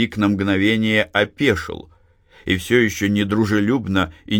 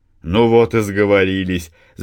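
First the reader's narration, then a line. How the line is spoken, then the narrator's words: Laughing. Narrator (Russian): засмеялся Матвей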